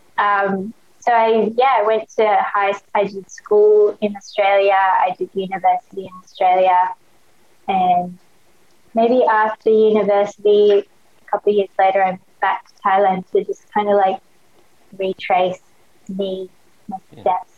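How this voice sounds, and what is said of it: Australian accent. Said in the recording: “that's why I have an Australian accent ... my Aussie accent has just, stuck with me”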